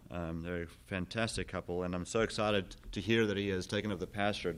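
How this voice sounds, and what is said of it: South African accent. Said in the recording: “as you can hear, I have an accent. I'm originally from South Africa”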